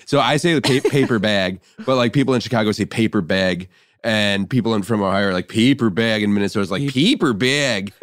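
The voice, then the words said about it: Imitates various Midwestern regional accents. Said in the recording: “You got a great Midwestern accent. ... You really do.”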